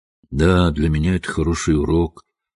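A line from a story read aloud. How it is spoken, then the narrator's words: Glum. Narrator (Russian): уныло заметил Хедерли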